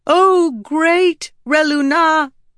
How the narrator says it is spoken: Rissen said loudly

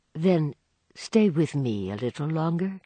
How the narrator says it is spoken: Madame Olenska said in a low tone

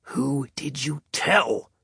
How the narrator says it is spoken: Spencer growled in his ear

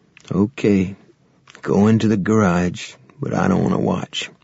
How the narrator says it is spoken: He said sadly

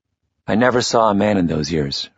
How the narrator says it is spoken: Freireich said

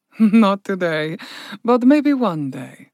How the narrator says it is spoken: Spirit Lotus laughed

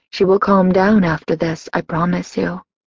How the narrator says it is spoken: my aunt whispered

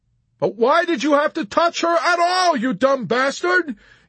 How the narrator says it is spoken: Yossarian shouted

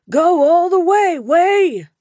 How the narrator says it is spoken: Wraith yelled

